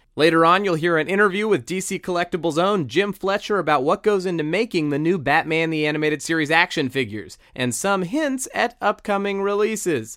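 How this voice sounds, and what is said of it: Newscaster-style announcer voice. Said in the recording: “I don't know why I'm talking like this. I feel like I'm talking like a newscaster.”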